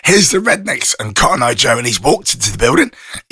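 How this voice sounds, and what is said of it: Rough, poor-sounding voice. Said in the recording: “My voice is still absolutely terrible.”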